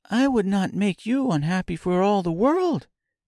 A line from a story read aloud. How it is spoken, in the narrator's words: exclaimed Dorothy